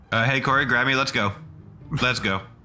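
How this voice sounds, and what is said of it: Hurried, urgent speech. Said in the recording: “Do you hear the hurry in my voice?”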